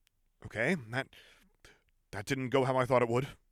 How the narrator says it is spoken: Lux said breathlessly

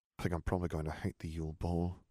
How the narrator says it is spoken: he murmured

